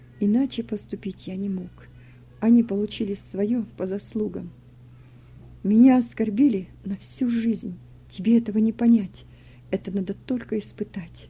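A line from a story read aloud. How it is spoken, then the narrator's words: Quiet. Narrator (Russian): тихо сказал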